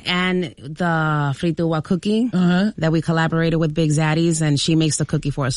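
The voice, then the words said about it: Dominican Spanish-accented English. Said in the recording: “Y'all the accent, the way you're able to just, you know, the words just rolling off your tongue”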